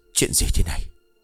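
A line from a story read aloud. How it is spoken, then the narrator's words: Dazed mutter. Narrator (Vietnamese): Thế ông đứng đờ ra lẩm bẩm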